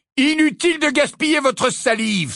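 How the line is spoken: Exclaimed. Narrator (French): s'écria Harry

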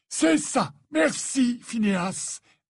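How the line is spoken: Imperious retort. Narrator (French): répliqua Dumbledore d'un ton impérieux

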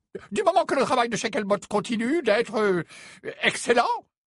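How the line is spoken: Unsteady voice. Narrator (French): déclara le premier ministre d'une voix mal assurée

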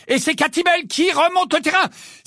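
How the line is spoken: Valiant shout over loud singing. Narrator (French): s'écria vaillamment Lee, malgré la chanson qui retentissait avec tant de force qu'il avait du mal à se faire entendre

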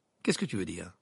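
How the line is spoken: Curt retort. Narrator (French): lança sèchement Harry

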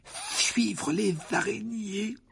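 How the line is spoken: Weak voice. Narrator (French): dit Ron d'une voix faible

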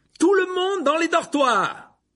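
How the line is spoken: Exclaimed. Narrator (French): s'écria Percy

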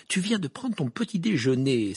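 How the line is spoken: Irritated exclamation. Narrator (French): s'exclama Hermione d'un ton irrité

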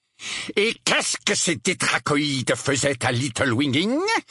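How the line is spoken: Outraged question. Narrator (French): demanda l'oncle Vernon d'un ton outragé

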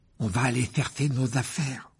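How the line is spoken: Desperate tone. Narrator (French): dit Ron d'un ton désespéré

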